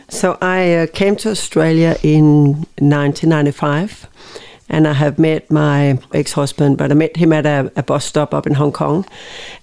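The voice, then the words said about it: Danish accent. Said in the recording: “You can tell from that Danish accent.”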